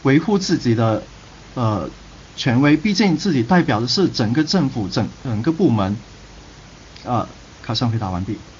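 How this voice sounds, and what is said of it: Guangdong or Guangxi accented Mandarin. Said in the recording (Chinese): “这个听口音的话，两广的同学嘛，不管是广东还是广西”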